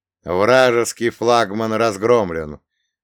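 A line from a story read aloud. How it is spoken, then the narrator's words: Loud confident announcement. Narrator (Russian): громко и уверенно сообщил Артамонов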